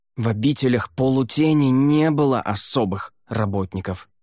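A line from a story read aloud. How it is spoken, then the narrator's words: Hissing. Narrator (Russian): прошипел он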